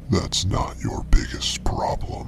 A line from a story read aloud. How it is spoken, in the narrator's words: on the 7th whisper, you should hear from behind you